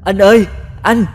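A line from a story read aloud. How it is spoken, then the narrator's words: Young woman screaming for help. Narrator (Vietnamese): Người con gái này vừa la hét gọi người thanh niên vừa hô hoáng kêu cứu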